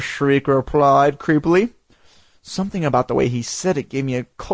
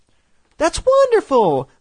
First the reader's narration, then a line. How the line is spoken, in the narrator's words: Mom exclaimed